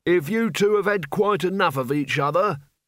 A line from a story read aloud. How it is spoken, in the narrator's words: bellowed Albert above the roar of sand